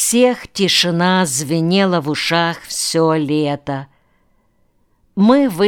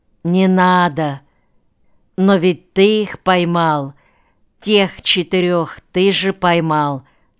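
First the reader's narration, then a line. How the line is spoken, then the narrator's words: Plain. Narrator (Russian): сказал Николай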